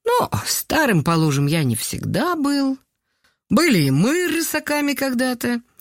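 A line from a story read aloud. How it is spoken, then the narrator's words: Laughing. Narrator (Russian): рассмеялся Николай Петрович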